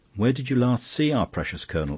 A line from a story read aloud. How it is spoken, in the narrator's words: asked Flambeau irritably